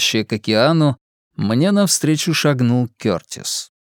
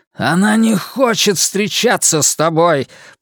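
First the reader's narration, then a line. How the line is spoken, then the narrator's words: Growling. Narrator (Russian): прорычал он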